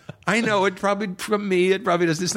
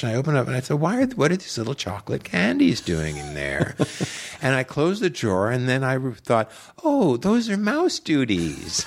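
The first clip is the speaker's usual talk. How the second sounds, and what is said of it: Weak Madeline Kahn impression. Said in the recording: “it's not even a very good Madeline Kahn impression”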